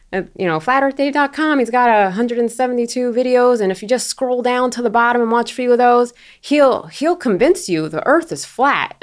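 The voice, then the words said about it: Put-on Florida accent. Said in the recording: “this is my Florida accent because this is what he actually, this is what people sound like in Florida”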